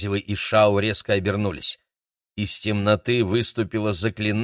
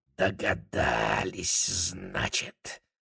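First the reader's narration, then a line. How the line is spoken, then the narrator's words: Hiss from behind. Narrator (Russian): прошипел кто-то за его спиной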